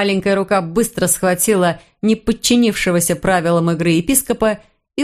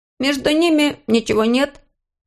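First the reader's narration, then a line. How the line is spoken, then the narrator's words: Uncertain hesitant. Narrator (Russian): неуверенно сказал он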